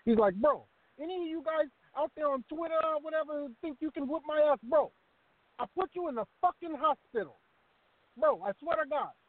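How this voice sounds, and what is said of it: Paulie impression, Brooklyn street-dude voice. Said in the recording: “talking like a street dude, like a dude from Brooklyn ... Great impression”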